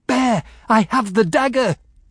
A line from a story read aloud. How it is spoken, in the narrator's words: I shouted